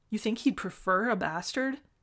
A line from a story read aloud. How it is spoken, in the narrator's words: Jinsu chokes a laugh